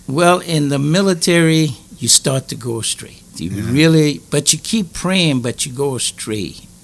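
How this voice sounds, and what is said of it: Louisiana accent mistaken for Jamaican. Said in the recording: “they called me the Jamaican boy ... I'm from Louisiana." But it was the accent. Uh-huh. It was the accent.”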